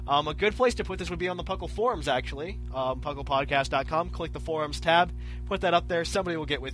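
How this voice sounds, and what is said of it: Usual voice. Nothing is said of it.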